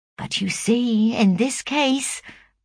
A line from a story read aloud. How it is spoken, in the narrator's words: pleaded Hattersley